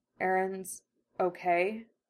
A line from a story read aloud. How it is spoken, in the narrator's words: Armin asks slowly, the tone making it a submissive plea, quiet and vulnerable